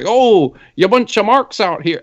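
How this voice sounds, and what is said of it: Imitates another person's accented voice. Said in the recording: “the accent doesn't bother me normally, but when it's his voice saying that”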